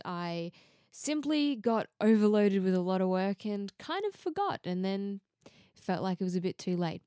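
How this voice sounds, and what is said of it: Australian accent. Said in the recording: “if you can't already tell from my accent, I'm from Australia”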